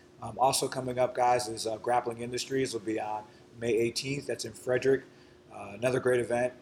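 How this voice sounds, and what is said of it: Slightly raspy voice. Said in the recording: “My voice is a little bit raspy today ... I overdid it on the voice”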